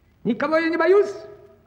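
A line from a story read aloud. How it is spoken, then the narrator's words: Loud shout. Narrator (Russian): крикнул он на весь лес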